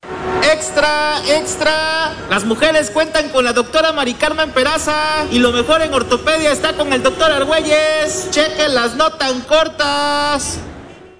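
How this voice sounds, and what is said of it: Mexico City accent, shouting newspaper crier. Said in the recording (Spanish): “me encanta el acento chilango ... Es muy de gritón de esa época ... De los boceadores”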